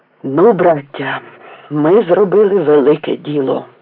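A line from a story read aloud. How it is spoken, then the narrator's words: Old man's delighted exclamation. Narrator (Ukrainian): захоплено вигукнув дід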